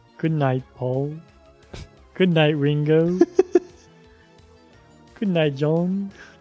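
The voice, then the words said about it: Put-on Liverpool accent. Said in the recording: “Say it in a Liverpool accent.”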